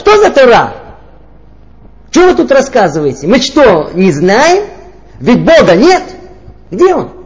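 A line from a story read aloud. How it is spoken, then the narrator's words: Woman's loud angry shout. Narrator (Russian): одна женщина и громким голосом, знаете, так рассерженно прокричала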